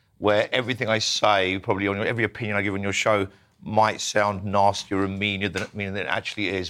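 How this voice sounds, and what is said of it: Croaky, hoarse low voice. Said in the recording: “I'm very croaky. I've had laryngitis for the last month ... I'm still left with a croakiness ... Very masculine.”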